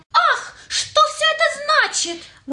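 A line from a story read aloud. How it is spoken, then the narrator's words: Offended exclamation. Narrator (Russian): воскликнула обиженная балеринка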